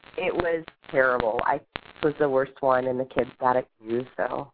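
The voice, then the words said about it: Sick-sounding voice. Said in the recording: “Sorry about my voice. I've had the flu the past week.”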